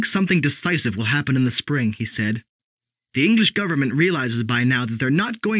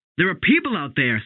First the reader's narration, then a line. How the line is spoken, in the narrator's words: Sam shouted